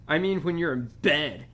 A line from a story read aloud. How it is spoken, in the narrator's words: Dudley snarled